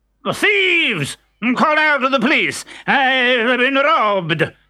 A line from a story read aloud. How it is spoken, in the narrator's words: shouted the doctor